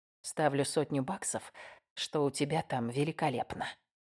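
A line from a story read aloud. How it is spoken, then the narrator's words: Whisper. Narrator (Russian): прошептал Уэст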